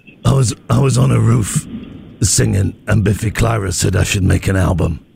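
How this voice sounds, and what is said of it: Imitates another person's voice. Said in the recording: “here's my impression”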